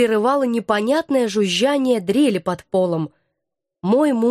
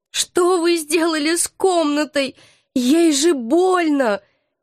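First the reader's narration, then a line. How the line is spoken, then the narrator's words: Sobbing even harder. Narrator (Russian): Еще пуще зарыдала я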